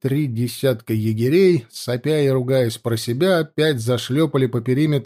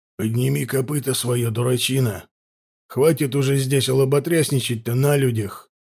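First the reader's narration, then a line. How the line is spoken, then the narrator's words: Angry gruff mutter. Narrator (Russian): зло буркнул один из унтеров-контролеров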